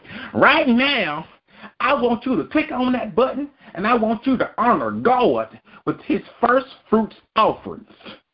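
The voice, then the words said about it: Twangy southern preacher voice. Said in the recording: “my Paula White voice ... you had a little bit too much twang, a little bit too much gurgle ... one of them southern white hicks”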